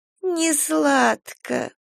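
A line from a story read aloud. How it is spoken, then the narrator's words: Toothless mumbling. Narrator (Russian): прошамкала Мария Павловна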